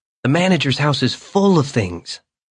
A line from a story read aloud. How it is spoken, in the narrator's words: Carl said excitedly, unable to contain himself